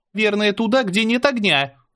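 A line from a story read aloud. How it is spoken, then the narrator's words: Panicked yelling. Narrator (Russian): заорала Мира, явно начиная паниковать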